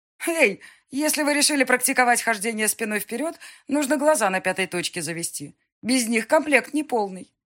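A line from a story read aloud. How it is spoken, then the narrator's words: Giggling joke, girl. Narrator (Russian): сострила девушка, хихикнув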